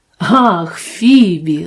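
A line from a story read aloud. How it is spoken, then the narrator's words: Exclaimed. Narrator (Russian): воскликнул он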